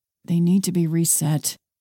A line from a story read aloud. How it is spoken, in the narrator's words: he mumbled